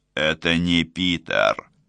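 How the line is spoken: Snort. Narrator (Russian): хмыкнул

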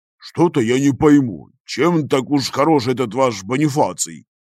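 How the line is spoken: Gloomy deep bass. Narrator (Russian): Хмуро пробасил мессер Арсиоло

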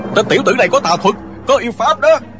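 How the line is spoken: Clamoring frightened angry monks. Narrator (Vietnamese): Cả đám hòa thượng vừa sợ vừa tức, nhao nhao hò hét

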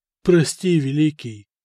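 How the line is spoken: Timid. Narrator (Russian): робко произнес Мартирос, бывший сасанитский правитель Армении

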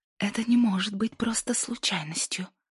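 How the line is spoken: Trembling whisper. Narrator (Russian): прошептала она дрожащим голосом

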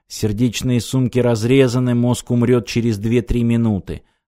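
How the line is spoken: Calm. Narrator (Russian): спокойно сказал Аранг

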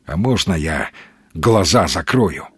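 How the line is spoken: Plain. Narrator (Russian): спросил Маломальский

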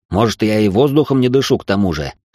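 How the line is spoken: Dismissive snort. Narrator (Russian): хмыкнул я

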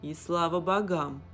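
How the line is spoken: Man's wry grunt. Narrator (Russian): хмыкнул мужчина

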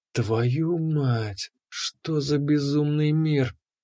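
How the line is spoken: Whispering. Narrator (Russian): прошептал я

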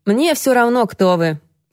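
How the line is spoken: Rude declaration. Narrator (Russian): грубо заявил он Алексии

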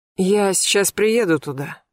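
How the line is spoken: Hoarse, sleepy voice. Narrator (Russian): хриплым сосна голосом сказала Марьяна

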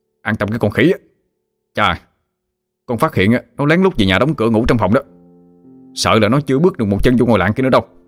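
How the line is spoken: Threatening shout. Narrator (Vietnamese): Hưng dọa nạt mà quát

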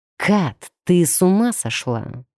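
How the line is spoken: Irritated hiss, werewolf. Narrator (Russian): прошипел раздраженно оборотень

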